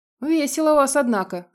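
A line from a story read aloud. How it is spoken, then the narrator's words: Remark, then a chuckle. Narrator (Russian): заметила лисичка, а потом хохотнула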